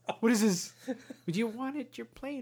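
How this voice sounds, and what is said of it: Old lady voice. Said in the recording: “I'm talking like my mom's old lady. ... I didn't know your mom was 87.”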